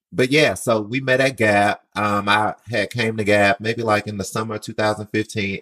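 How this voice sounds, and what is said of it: Southern US accent. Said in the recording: “I came from Mobile, Alabama. So, excuse the accent.”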